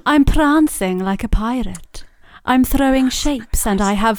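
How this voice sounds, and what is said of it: Put-on Welsh-sounding riddle voice. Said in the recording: “Why are you saying it with a Welsh accent? ... That's not a Welsh accent ... That's her riddle voice. ... That's really Welsh now.”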